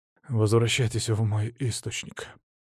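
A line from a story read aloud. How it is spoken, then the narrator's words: Heavy sigh. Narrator (Russian): тяжело вздохнул Венедикт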